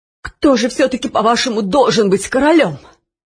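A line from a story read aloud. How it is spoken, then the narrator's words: Changed, almost muffled voice. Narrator (Russian): спросил Нушрок изменившимся почти глухим голосом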